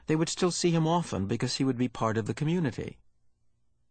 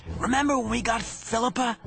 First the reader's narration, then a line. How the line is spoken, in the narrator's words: he asked in a loud whisper